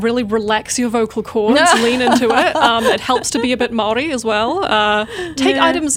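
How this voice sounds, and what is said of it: New Zealand accent. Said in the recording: “nice to hear a New Zealand accent”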